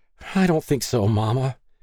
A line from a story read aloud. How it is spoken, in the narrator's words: Stacy anxiously blubbered, a youthful intonation